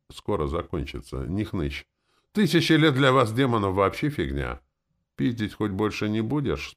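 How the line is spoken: Glum question. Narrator (Russian): спросила она уныло

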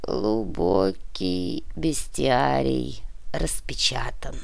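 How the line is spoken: Muffled, hollow voice. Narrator (Russian): глухо произнес князь

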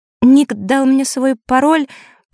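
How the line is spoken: Unhappy timid babbling. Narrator (Russian): пролепетала несчастная Василиса

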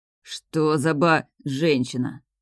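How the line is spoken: Gloomy remark. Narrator (Russian): мрачно отметил селянин

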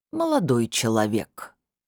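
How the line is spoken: Reluctant drawl. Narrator (Russian): нехотя протянул лектор

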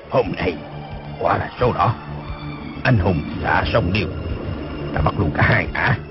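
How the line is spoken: Gleeful muttering. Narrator (Vietnamese): Dân Trung Hạc lúc mới thấy đạo cô dung nhan yểu điệu bước ra, khoái quá, lẩm bẩm

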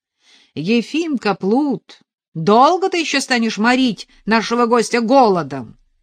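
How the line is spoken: Shouted into the distance. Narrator (Russian): крикнул Велен в темную глубину трактира

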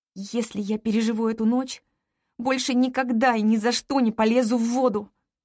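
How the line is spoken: Through gritted teeth. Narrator (Russian): цежу я сквозь зубы

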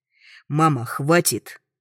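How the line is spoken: Rude bark. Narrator (Russian): грубо рявкаю на нее

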